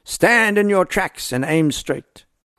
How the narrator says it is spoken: Uys shouted

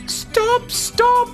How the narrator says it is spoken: she pleaded

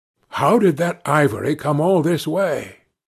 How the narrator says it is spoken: growled the elder man, who seemed very vexed

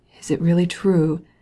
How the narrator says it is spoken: he said at last in a husky voice

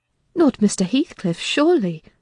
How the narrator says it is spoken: I exclaimed

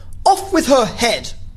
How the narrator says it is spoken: the queen shouted at the top of her voice

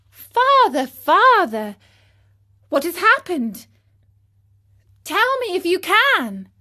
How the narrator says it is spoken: cried Pinocchio

